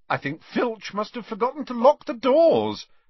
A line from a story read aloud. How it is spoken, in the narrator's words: said Harry cheerfully